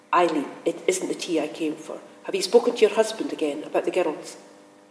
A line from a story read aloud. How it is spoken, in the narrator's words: said firmly